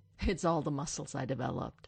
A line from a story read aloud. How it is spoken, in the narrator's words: Stiles snorts